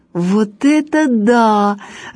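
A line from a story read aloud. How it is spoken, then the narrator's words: Laughing. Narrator (Russian): рассмеялась Галя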